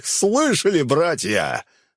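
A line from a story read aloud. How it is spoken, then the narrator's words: Guffawing. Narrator (Russian): хохотал он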